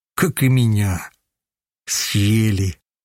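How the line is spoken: Heavy sigh. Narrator (Russian): Вздохнул тяжело

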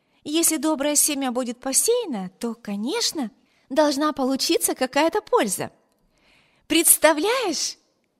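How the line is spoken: Cheerful. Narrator (Russian): Весело продолжала она

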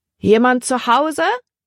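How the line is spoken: Calling out. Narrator (German): rief Libby

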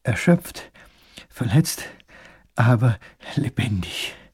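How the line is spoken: Panting, breathless. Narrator (German): keucht der kleine Großherzog

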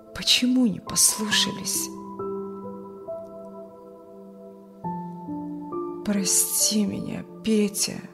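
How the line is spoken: Muffled, hollow voice. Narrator (Russian): глухо сказал Юрген

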